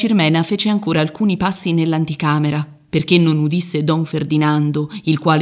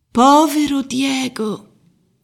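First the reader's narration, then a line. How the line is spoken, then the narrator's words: Sighed. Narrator (Italian): sospirò la zia Macrì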